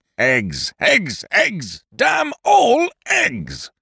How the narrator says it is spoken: in an overwrought sort of voice

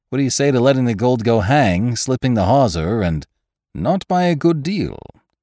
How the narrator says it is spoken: exclaimed Ned coolly

